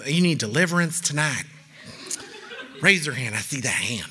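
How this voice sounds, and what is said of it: Put-on church preacher voice. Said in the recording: “do the voice every time. It just sounds like it should become”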